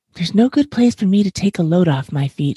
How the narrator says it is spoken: says

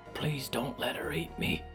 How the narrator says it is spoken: Buck whispered

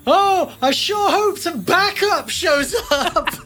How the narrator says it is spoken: Finn yells

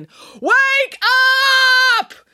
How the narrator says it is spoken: while yelling

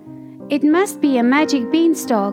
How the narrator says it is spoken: cried Jack

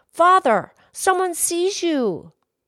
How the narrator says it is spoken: the child called out

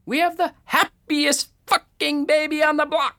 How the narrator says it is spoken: manically scream

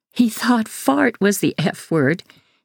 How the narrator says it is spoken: she says, laughing

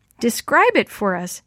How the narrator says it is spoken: Sammy finally shouted

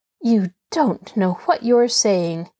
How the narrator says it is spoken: Nancy said icily

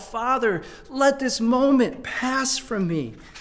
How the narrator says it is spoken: he cries out

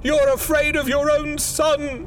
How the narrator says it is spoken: she cried, struggling

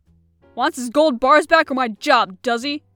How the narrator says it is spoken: Rentor growled angrily

